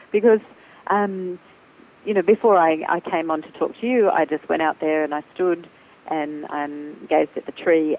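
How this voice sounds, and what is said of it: Choked up, emotional voice. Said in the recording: “I'm getting all choked up as I'm talking about it”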